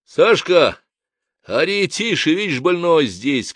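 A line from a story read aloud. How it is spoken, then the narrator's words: Shouting. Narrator (Russian): крикнул я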